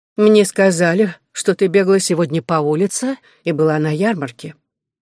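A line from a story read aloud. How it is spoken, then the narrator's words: Dry, flat, blunt statement. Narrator (Russian): сухо и неэмоционально прямо заявила она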